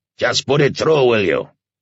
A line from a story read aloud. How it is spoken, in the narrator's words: the commandant roared